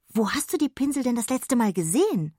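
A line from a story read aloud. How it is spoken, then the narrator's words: Excited question. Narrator (German): fragte sie aufgeregt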